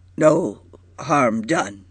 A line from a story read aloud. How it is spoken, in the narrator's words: he said brokenly